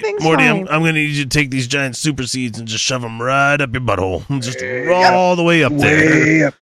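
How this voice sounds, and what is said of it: Strained put-on character voice. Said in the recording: “I can't do that voice. ... It grates my voice too much.”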